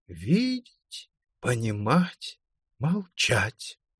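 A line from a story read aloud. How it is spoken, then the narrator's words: Quiet but distinct. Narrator (Russian): он тихо, но отчетливо произнес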